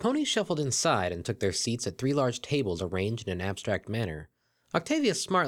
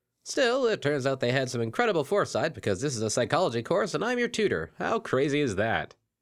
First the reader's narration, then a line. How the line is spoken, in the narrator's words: He laughed again